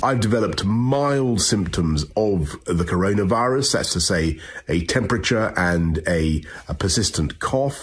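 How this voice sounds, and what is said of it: British English accent. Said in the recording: “English accent that you're hearing”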